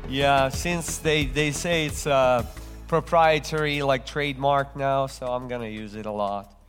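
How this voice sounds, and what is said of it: Slight foreign accent. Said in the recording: “I speak with a little bit of an accent because I wasn't born here.”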